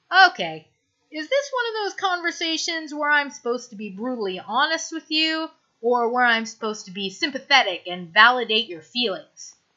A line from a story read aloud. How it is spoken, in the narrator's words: sighs